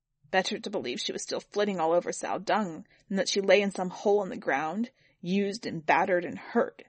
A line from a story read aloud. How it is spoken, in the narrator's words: Ming spat